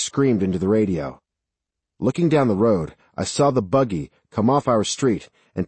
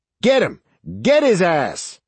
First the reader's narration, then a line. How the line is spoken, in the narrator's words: Sarge screamed into the radio